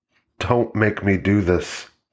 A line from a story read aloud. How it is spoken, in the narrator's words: whispered, shaking her head as if completely unable to accept the reality of this situation